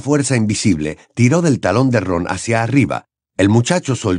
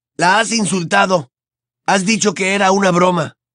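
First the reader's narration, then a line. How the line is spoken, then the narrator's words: Shouted. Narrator (Spanish): gritó Ron, y su cara empezó a amoratarse por la sangre que le bajaba a la cabeza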